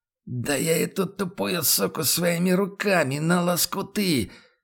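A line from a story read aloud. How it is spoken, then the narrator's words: Hoarse, wheezing. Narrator (Russian): Начинает хрипеть прокашлявшийся и продышавшийся Хьюга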